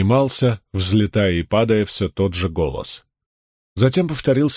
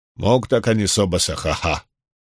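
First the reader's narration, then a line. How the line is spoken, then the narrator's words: Muttering resumed. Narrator (Russian): Бормотание ... возобновились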